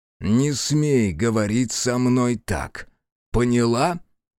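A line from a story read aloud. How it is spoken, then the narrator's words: Through clenched teeth. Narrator (Russian): процедила Аяшики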